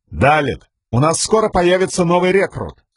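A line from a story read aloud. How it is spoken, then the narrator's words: Strong voice. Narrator (Russian): произнес Каладин сильным голосом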